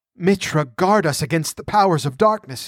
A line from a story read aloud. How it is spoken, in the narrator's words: gasped